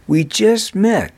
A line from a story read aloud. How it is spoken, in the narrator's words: anxiously answered Eason